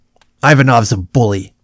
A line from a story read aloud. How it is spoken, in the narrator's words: Wilson snapped, clearly annoyed now